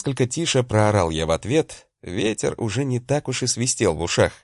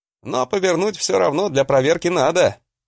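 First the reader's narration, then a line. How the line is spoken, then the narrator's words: Shout. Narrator (Russian): крикнул я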